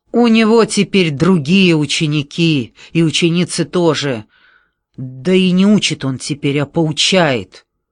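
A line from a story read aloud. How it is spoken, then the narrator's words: Bitter smirking. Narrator (Russian): эдак зло усмехнувшись, говорит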